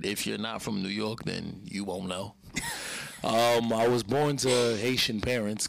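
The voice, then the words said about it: Brooklyn New York accent. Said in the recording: “You can tell by the accent. ... from Brooklyn, New York”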